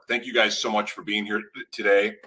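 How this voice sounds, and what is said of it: Choked-up, emotional voice. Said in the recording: “Got choked up.”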